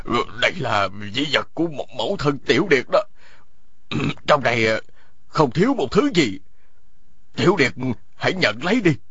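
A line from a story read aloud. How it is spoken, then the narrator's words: Trembling old man. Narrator (Vietnamese): Lão run run nói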